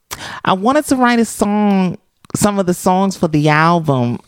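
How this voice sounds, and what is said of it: High-pitched New York accent impression. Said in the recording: “should I do a Cyndi Lauper accent? ... She has this like New York, my voice is kind of high accent ... You sounded like a black gay drag queen in New York.”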